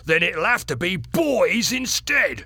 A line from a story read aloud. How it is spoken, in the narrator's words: he shouted